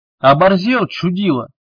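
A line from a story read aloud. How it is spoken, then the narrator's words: Five voices roaring. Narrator (Russian): Взревело сразу пять голосов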